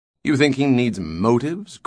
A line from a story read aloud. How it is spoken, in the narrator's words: questioned Farrell scornfully